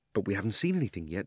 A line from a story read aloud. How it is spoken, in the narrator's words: said Diggory